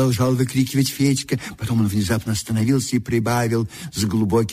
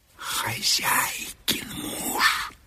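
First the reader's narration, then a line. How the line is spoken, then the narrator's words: Quick whisper. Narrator (Russian): быстро шепнул Федька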